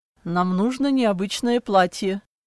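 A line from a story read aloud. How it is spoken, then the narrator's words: Dry reply. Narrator (Russian): сухо ответил Клаус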